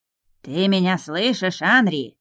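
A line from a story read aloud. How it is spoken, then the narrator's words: Loud bark into ear. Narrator (Russian): гаркнул на ухо скрипач Рипс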